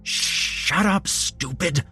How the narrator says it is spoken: Jeremy hissed

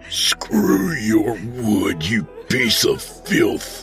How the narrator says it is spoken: he snarled through gritted teeth

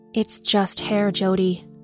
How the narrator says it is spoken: she replied

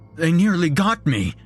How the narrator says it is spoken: he gasped

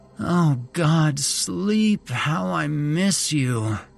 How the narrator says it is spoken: Megan groaned

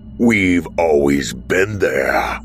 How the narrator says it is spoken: the stranger snarled

